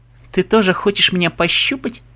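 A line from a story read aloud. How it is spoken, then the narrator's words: Giggled. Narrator (Russian): хихикнула Оливия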